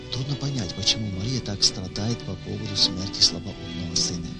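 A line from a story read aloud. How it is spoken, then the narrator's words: Whisper. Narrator (Russian): На похоронах одна из знакомых женщин шепотом сказала своей соседке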